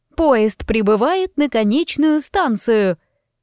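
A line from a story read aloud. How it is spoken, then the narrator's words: Mechanical voice. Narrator (Russian): Механическим голосом сообщила Лейси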